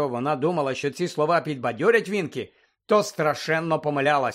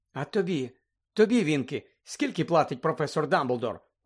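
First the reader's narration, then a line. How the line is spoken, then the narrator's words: Gentle question. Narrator (Ukrainian): лагідно запитала Герміона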